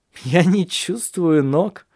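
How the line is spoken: Laughing. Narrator (Russian): засмеялся Александр

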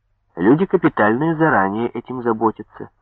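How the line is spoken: Plain. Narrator (Russian): сказала женщина

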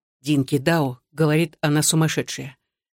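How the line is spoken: Whispered. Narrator (Russian): Рихтер прошептал

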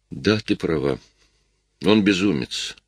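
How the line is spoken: Calm. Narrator (Russian): спокойно сказал Джейк

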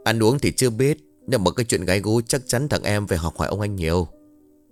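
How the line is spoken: Faint smirking reply. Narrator (Vietnamese): Vũ không cười to, chỉ khẽ nhếch lên hai bên mép một chút rồi đáp

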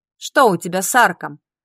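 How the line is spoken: Clipped words, pursed lips. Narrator (Russian): поджав губы, процедила преподаватель

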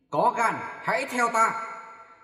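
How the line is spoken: Sudden shout. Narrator (Vietnamese): Trương Khiếu Lâm vụt hét lên

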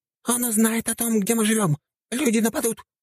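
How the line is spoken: Squeaky voice, huge tick. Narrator (Russian): пропищал огромный клещ

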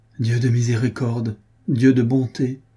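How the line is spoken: Exclaimed. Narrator (French): s'écria Armand Louis

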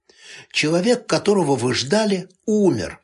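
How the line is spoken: Calm reply. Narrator (Russian): спокойно ответил

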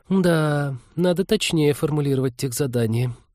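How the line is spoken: Girl muttering. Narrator (Russian): пробормотала девушка

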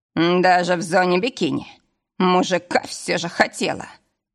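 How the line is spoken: Snort. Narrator (Russian): хмыкнул

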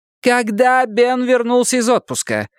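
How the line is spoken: Nearly yelling into phone. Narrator (Russian): почти заорала в трубку Бакстер

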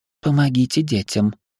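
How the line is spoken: Soft request. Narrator (Russian): мягко попросила она

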